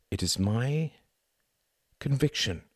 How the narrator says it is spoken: he said softly

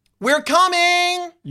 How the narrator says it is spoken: You yell

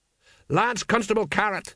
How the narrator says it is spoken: he shouted

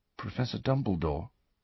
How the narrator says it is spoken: said very quietly

